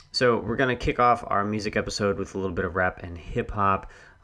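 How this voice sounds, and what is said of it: Hoarse, strained voice. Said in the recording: “So I'm starting to lose my voice. Hopefully I can make it through this podcast.”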